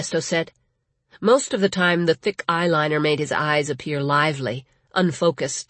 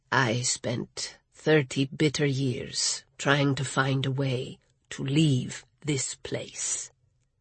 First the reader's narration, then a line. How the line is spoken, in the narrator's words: Ernesto said so quietly she had to lean perilously close